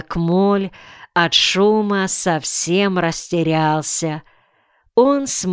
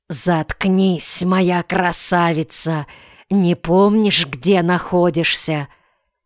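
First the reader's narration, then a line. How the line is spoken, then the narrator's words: Angry whisper. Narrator (Russian): муж сердито шептал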